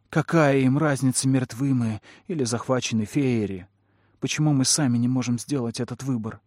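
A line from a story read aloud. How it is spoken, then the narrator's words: Sighing. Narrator (Russian): Кэллум вздохнул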